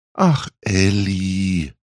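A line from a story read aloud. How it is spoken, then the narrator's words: Sighed. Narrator (German): seufzte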